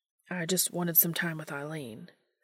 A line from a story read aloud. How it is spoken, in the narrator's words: Sam mumbles, deflating a bit